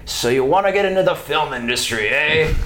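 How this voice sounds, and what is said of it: Brooklyn accent impression. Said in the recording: “he's from Brooklyn, so he's got this like, I don't know what that accent is, but it's like, you know.”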